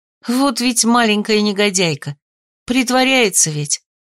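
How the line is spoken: Sigh. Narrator (Russian): Я вздохнула

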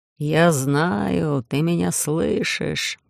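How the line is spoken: Distorted booming voice. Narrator (Russian): прогудела земля искаженным голосом предателя

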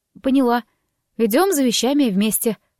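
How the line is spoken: Grumbled. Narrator (Russian): буркнула я

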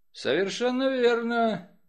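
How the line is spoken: Bored voice. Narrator (Russian): скучающим голосом ответил сыщик

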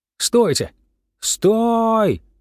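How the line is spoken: Desperate screaming. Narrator (Russian): завопил я, как резанный

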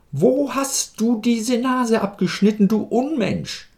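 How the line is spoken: Angry shouting. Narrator (German): schrie sie ihn wütend an

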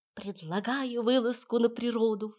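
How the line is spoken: Silky whisper. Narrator (Russian): вкрадчиво прошептала

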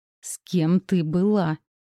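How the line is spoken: Growl echoing down corridor. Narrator (Russian): Рычание разнеслось по коридору

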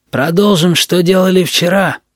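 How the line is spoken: Hoarse voice. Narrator (Russian): сказал хриплый

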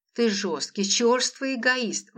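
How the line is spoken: Exclaimed. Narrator (Russian): воскликнула Лола

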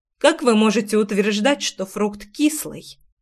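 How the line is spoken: Strangled voice. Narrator (Russian): Сдавленно проговорила я

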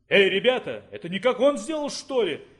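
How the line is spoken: Exclaimed, soldier. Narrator (Russian): воскликнул один из солдат

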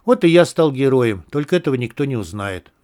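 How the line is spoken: Sighing. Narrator (Russian): вздохнул я

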